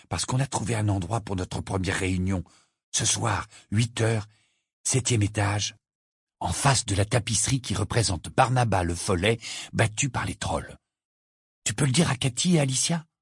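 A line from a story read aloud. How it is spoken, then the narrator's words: Low voice. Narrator (French): lui dit Harry à voix basse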